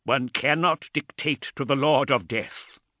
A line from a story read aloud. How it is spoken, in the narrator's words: he said through gritted teeth